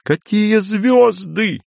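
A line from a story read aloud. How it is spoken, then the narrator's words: Laughing. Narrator (Russian): Андрей все еще, смеясь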